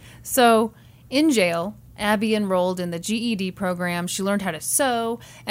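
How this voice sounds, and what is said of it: Usual voice. Nothing is said of it.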